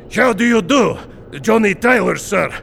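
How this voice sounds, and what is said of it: Thick Russian accent. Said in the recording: “His was a very thick accent.”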